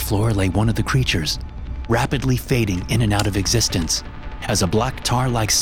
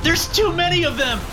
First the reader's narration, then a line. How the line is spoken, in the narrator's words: screamed, but his words were cut short